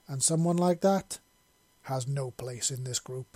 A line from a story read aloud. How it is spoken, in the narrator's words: he said flatly